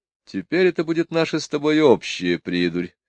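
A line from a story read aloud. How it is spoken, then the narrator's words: Sighing. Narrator (Russian): вздохнул сэр Коффа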